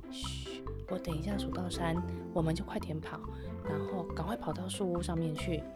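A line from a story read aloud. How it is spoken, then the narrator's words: Soft whisper. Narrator (Chinese): 杰克轻声的跟安妮说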